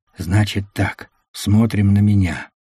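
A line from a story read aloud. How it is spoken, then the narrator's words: Whispered command. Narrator (Russian): шепотом скомандовал рейдер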